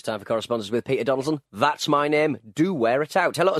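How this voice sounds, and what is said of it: Usual voice. Nothing is said of it.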